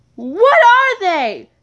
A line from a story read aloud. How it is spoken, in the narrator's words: Red screamed